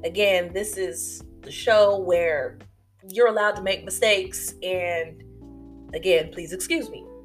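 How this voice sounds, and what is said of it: Stuffy, congested voice. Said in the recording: “if I sound a little stuffy, if I sneeze here and there... It is pollen season”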